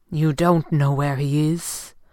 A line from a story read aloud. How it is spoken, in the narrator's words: Fenwick asked grimly